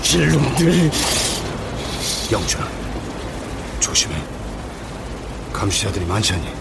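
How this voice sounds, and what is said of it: Low, hushed admonishing voice. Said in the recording (Korean): “나지막한 목소리로 타일렀다”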